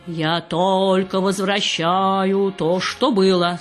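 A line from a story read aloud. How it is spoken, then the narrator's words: Loud. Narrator (Russian): сказал Анисим громко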